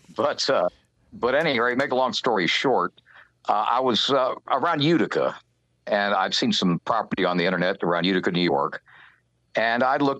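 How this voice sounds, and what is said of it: Non-Texan regional accent. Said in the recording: “you could probably tell I'm not from Texas ... accent.”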